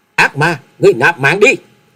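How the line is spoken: Uncontrolled loud shout. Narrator (Vietnamese): Nàng không thể kềm chế nổi bản thân, hét to lên một tiếng nói

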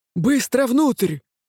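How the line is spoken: Shout. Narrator (Russian): крикнула Венар

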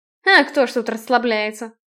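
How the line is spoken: Snort. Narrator (Russian): фыркнул Блейн

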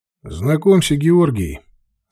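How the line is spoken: Casual everyday tone. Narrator (Russian): совершенно будничным тоном сказал он

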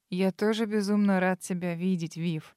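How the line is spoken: Breathed softly against lips. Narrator (Russian): выдохнул дар мне в губы

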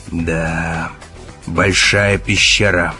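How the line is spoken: Grumble. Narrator (Russian): пробурчал Керк

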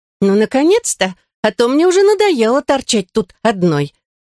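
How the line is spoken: Cheerful. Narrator (Russian): сказала она, весело топоча ножками

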